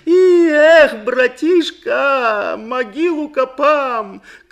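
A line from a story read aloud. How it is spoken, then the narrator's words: Straining but cheerful shout. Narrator (Russian): кричал со взбухшей от напряжения шеей, но кричал бодро, потому что копал ее не для себя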